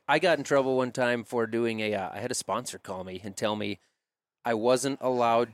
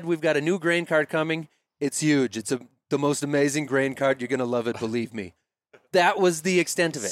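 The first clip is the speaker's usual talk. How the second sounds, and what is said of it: Donald Trump impression. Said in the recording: “do a Donald Trump impression”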